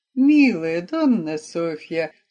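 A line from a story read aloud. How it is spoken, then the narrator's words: Soothing coo. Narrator (Russian): успокаивающе проворковал Джульеттин муж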